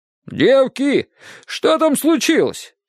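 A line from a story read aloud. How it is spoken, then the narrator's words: Shouted from the kitchen. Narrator (Russian): крикнула из кухни тетя Маша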